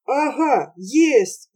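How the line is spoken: Joyful reply. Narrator (Russian): радостно ответил Вахромеюшка

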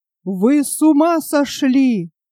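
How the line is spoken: Loud and angry, then quieter. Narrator (Russian): Громко и гневно, затем тише, но еще горячей

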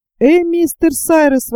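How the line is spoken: Exclamation. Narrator (Russian): воскликнул Пенкроф

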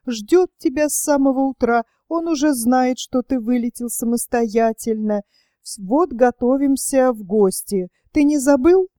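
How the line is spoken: Mother switching to cheerful tone. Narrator (Russian): ответила мать и, поняв свою ошибку, заговорила радостно

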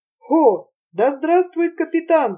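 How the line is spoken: Group shouting. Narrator (Russian): закричали

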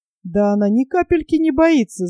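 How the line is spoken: Laughing. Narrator (Russian): засмеялся Генри

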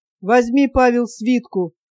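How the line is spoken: Calm, fatherly. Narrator (Russian): спокойно сказал отец

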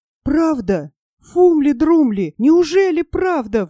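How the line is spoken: Exclaiming. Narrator (Russian): воскликнул Нильс

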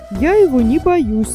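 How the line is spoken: Exclaiming. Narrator (Russian): воскликнул Гунду

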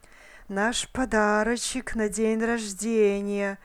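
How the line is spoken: Whispered under breath. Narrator (Russian): прошептал Голлум себе под нос

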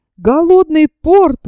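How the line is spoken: Exclamation under pressure. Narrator (Russian): воскликнул атакованный со всех сторон француз

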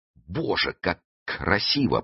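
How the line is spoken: Mutter. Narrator (Russian): пробормотал Фандорин

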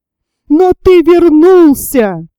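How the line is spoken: Disgusted shout. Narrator (Russian): с отвращением закричал Ромашов

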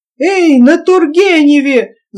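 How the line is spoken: Wild yell, old man. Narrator (Russian): заорал дедушка не своим голосом

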